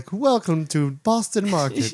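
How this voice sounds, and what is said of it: Put-on English accent. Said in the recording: “A nice English accent.”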